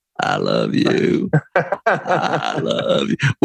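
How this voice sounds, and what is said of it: Bill Clinton Southern accent impression. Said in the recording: “in a Southern accent ... sounds more like Bill Clinton going, "I love you." But it's in that Southern accent.”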